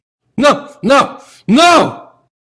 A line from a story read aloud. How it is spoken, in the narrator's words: he screamed